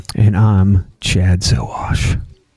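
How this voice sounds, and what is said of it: Bedroom voice. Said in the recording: “bedroom voice”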